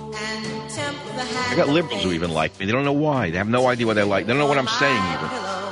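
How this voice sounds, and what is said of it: New York accent. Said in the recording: “I have a New York voice, New York accent.”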